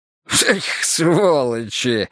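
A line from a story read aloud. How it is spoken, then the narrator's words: Short laugh. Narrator (Russian): хохотнул Гога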